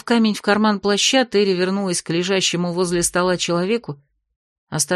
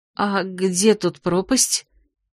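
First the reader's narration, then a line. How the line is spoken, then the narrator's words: Hesitant girl's question. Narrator (Russian): неуверенно осведомилась девушка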